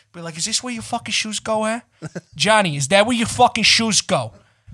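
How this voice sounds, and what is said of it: Exaggerated angry New York accent. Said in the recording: “I'll just go into that New York accent ... I'll just pretend to be angry”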